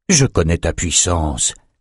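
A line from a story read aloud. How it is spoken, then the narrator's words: Plain. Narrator (French): dit Nathan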